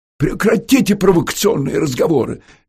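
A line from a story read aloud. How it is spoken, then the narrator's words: Nervous exclamation. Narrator (Russian): нервно воскликнул Браматун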